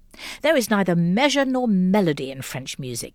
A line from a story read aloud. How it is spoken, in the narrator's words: thundered